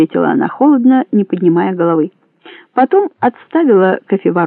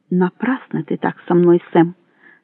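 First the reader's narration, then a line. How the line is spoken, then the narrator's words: Quiet. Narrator (Russian): сказала она тихо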